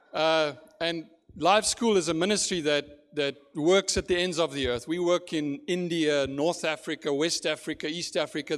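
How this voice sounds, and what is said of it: South African accent. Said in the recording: “this accent is not Gaston, it's South Africa”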